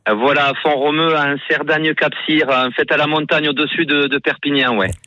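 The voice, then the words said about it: Regional southern French accent. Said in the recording (French): “et l'accent qui va avec”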